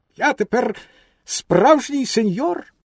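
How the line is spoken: Proud exclamation. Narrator (Ukrainian): так йому сподобався власний вигляд, що він гордовито вигукнув

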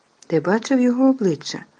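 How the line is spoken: Cheerful. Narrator (Ukrainian): весело Рон

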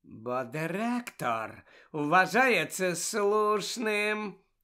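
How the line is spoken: Unctuous explaining tone. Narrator (Ukrainian): єлейним тоном пояснив Снейп

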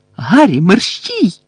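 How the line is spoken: Shriek from within crowd. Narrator (Ukrainian): заверещала Герміона десь зсередини юрби

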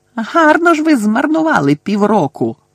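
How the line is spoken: Shrieking reply. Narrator (Ukrainian): верещала у відповідь вона

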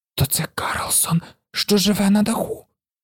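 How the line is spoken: Whisper. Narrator (Ukrainian): прошепотіла Гуніла

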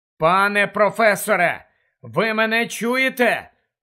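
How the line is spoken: Loud question echoing in cave. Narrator (Ukrainian): голосно перепитав, і голос луною розлігся у печері

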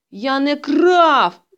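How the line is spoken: Shouting. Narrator (Ukrainian): закричав Петрик

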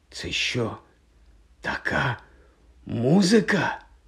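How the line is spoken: Whisper. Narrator (Ukrainian): прошепотів Рон

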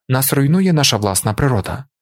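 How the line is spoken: Monarch, calm voice. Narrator (Ukrainian): спокійним голосом продовжив монарх

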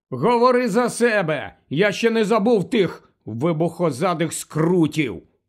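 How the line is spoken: Gloomy grumble. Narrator (Ukrainian): похмуро буркнув Рон

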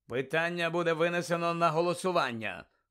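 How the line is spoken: Cold, continuing. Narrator (Ukrainian): холодно продовжував містер Кравч

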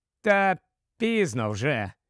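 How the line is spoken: Sigh. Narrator (Ukrainian): зітхнув Крейн

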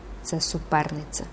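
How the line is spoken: Pained inner whisper. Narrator (Ukrainian): в глибині її серця якийсь ще болісніший голос прошепотів

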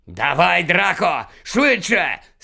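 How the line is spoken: Angry shout, harsh man. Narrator (Ukrainian): сердито крикнув чоловік із жорстоким обличчям

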